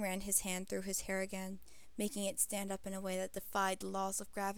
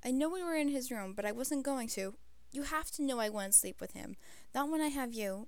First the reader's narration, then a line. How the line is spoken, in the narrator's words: Jim said nervously